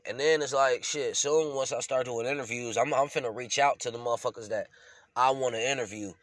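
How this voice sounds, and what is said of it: Congested, sick-sounding voice. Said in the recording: “I'm still sick, bruh. You can hear it in my voice... blow all the snot out my right... It's allergy season, got me fucked up.”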